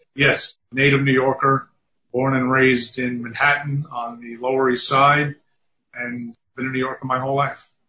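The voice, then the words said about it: New York accent. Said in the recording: “You couldn't tell by my accent.”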